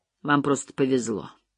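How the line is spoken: Icy declaration. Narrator (Russian): ледяным тоном заявил

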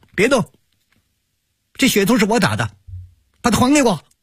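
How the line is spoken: Boy's shout from nearby. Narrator (Chinese): 从不远的地方传来了一个男孩子的喊声

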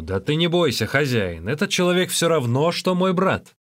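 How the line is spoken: Shout. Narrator (Russian): Тогда Луджишень крикнул ему

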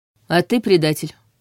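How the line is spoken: Cold reply. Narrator (Russian): Столь же холодно отозвался

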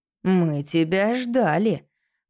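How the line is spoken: Growled. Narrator (Russian): прорычал Гюстав

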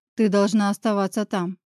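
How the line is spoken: Dry, curt statement. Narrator (Russian): сухо произносит

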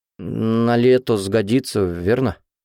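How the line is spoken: Uncertain question. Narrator (Russian): неуверенно спросил Сол

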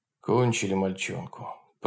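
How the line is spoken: Bearded man muttering. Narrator (Russian): пробормотал бородатый партизан

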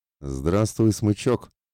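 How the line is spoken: Joyful grinning mercenary commander. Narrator (Russian): радостно осклабился командир наемников

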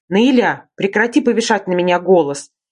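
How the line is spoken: Barked. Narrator (Russian): рявкнул Ренат

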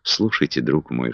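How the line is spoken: Whisper. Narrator (Russian): шепнула

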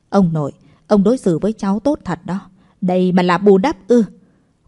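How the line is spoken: Cold, expressionless. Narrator (Vietnamese): Cố Vĩ Y lạnh lùng, nói mà không có biểu cảm gì

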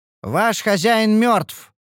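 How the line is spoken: Loud announcement. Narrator (Russian): объявила она громко

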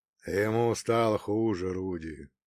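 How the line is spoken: Muffled, hollow voice. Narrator (Russian): глухо отозвался колдун

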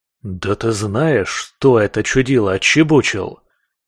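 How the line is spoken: Hissing. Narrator (Russian): Зашипел я

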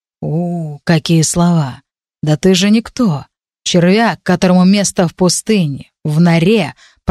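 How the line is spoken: Growl. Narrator (Russian): прорычал Руэл

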